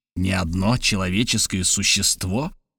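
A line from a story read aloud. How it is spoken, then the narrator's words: Quiet old uncle. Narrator (Russian): ответил дядюшка тихим голосом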